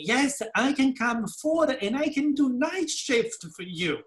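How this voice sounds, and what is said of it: Deliberately thickened foreign accent. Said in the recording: “I was even thickening my accent as much as I could”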